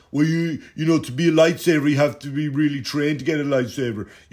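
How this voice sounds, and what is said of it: Mocking voice of Star Wars fans. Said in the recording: “I'm doing the voice because that's what they fucking are to me ... these Star Wars fans”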